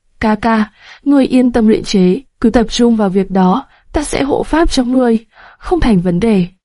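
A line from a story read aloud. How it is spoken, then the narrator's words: Smiling. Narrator (Vietnamese): Nam Cung Vi mỉm cười nói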